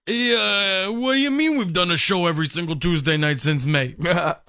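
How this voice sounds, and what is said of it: Impression of a colleague's voice. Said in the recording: “something Matt would say, so I'm going to do my best to imitate his voice ... A Matt impersonation”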